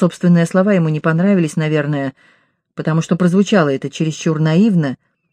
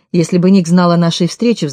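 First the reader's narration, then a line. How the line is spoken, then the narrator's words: Sighing. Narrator (Russian): вздохнула я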